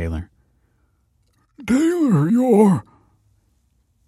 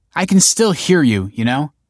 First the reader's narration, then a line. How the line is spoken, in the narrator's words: snapped Olive